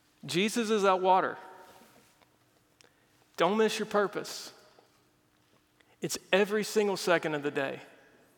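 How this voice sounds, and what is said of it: Emotional, choked-up preaching voice. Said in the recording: “Why am I getting emotional right now?”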